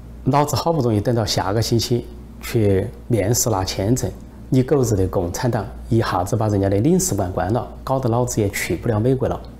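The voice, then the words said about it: Sichuan dialect imitation. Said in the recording (Chinese): “用四川话说”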